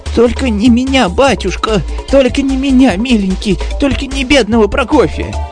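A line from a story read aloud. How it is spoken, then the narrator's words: Servant pleading. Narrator (Russian): взмолился слуга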